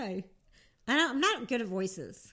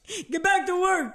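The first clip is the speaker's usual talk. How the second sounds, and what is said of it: New Jersey–New York boss voice. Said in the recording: “Do the construction worker boss lady ... That was pretty good ... you're good at accents ... that's like New Jersey, New York”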